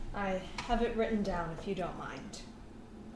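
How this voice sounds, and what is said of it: Usual voice. Nothing is said of it.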